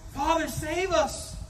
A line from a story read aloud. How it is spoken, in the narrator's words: The children cried out as the monster came toward them